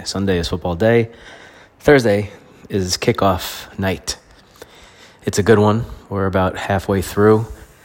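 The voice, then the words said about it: Stuffy, congested sick-sounding voice. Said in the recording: “you can still hear it in my voice that there's, it's not gone. Still coughing, still stuffy”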